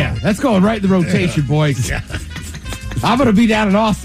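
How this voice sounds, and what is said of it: Usual voice. Nothing is said of it.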